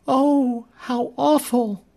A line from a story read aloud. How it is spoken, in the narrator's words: Phil gasped